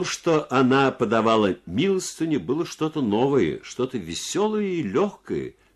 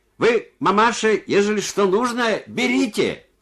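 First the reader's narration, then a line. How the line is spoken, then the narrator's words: Shouting deaf man. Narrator (Russian): глухой крикнул ей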